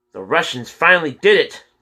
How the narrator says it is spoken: James screamed, grabbing his face

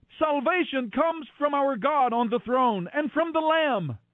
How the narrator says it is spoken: they were shouting with a mighty shout

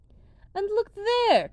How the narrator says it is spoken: cried the prince, because now he saw, for the first time, the footsteps of a woman

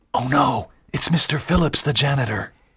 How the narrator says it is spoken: Walter whispered

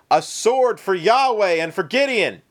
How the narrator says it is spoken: everyone else followed suit, shouting

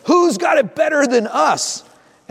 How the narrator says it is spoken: their dad yelling

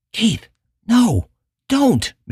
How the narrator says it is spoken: Michelle whispered hoarsely

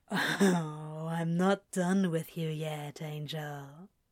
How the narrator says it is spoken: Crowley says with a dark chuckle

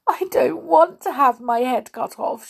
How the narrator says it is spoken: she sobbed

